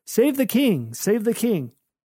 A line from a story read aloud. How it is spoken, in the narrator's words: During their torments, the costume men called out